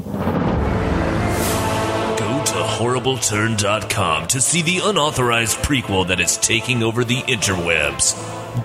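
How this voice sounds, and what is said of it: Movie trailer announcer voice. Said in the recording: “do the movie voice thing now?”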